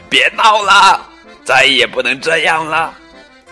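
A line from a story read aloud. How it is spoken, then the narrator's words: Exasperated yelling. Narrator (Chinese): 农场主太太看到洛特又把邮递员吓跑了，大叫起来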